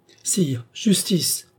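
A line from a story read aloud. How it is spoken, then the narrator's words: Old woman exclaiming. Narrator (French): s'écria la vieille dame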